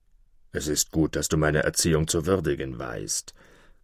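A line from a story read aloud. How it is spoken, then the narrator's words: Wolf growling. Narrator (German): knurrte der Wolf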